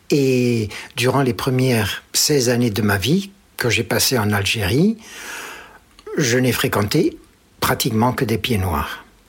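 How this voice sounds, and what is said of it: Marked pied-noir French accent. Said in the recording (French): “cet accent marqué ... Mon accent, je pense, est assez particulier”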